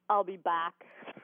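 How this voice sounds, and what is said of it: Austrian accent. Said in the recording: “Say something very Austrian ... Use your accent.”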